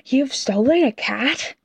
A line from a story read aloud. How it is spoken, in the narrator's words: Ned Whisper exclaimed in his ear